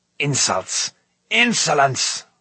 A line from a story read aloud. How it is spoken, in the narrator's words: roared Gorion, his face turning purple